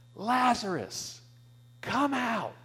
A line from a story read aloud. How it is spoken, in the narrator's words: Jesus yells, he cries out